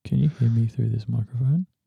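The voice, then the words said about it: Whispering close to the microphone. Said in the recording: “Are you whispering? ... Yeah, I was. I was talking like right into the microphone.”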